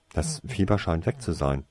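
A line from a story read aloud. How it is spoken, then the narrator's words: Plain. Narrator (German): sagte sie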